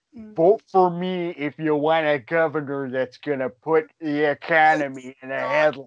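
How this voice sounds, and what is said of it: Deep-voiced Minnesota accent impression. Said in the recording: “You sound like Jesse Ventura... It's the Minnesota accent with the deep voice.”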